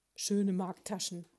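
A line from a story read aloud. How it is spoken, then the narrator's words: Growled. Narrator (German): knurrte Ambrosius Dauerspeck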